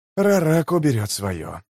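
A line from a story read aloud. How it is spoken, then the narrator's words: Whisper. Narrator (Russian): прошептал жемчуг чуть погодя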